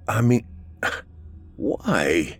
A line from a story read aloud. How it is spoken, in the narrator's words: He stuttered and tried to ask his father